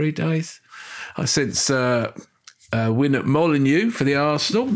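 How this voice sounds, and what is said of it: Usual voice. Nothing is said of it.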